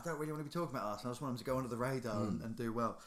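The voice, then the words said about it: Wild Cockney impression of Ian Wright. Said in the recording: “Was that a Cockney accent you tried to do there? It was a bit wild. ... Of Ian Wright?”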